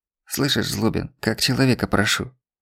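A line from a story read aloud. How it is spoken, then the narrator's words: Hissing whisper. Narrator (Russian): Свистяще прошептал он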